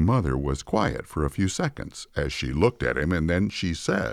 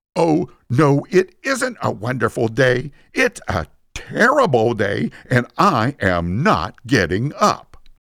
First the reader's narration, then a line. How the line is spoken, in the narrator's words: in an angry and defiant voice, he responded